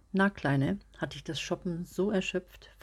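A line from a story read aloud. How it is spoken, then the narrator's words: Casual question. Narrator (German): fragte Peter dann leger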